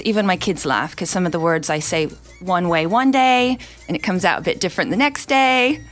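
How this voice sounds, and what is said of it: Mixed, partly English accent. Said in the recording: “my English accent ... the accent started coming back, but you can tell it's a kind of a... a funny mixture ... It's a mishmash ... People cannot tell what it is”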